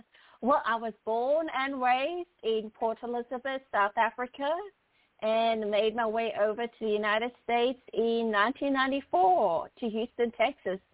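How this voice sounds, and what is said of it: Foreign English accent. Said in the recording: “you have such a beautiful accent”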